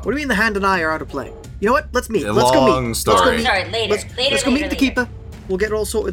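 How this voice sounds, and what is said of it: British accent. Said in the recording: “Now I'm British for some reason. What happened?”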